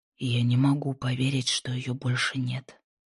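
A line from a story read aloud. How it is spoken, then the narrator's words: Quiet whisper to himself. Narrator (Russian): тихо прошептал он, словно эти слова были обращены к самому себе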